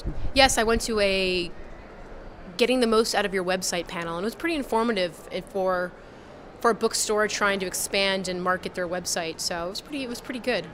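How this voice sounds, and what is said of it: Slightly hoarse, strained voice. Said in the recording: “I'm sort of losing my voice a little bit due to the allergies”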